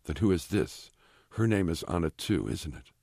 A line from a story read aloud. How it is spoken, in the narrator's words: Blank says, his voice quivering with emotion